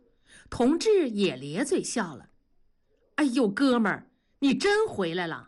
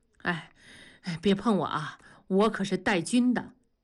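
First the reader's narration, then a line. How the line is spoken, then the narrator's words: Joking. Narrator (Chinese): 大庄 玩笑着说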